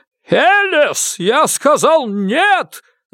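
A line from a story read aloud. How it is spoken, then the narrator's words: Yell. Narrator (Russian): завопил он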